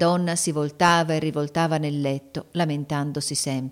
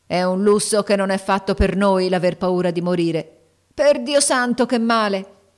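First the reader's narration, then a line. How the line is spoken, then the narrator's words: Cry of pain. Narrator (Italian): cacciò un urlo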